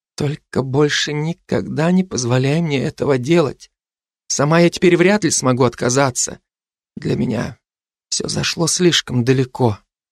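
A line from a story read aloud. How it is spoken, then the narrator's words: Whisper in ear. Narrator (Russian): Джанка прошептала на ухо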